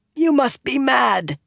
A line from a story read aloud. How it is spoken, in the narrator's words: rasped